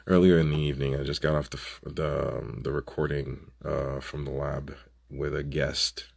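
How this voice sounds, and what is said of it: Hoarse, congested voice. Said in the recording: “sorry about my voice ... a very nasty sore throat and congestion ... forgive my voice if it sounds hoarse”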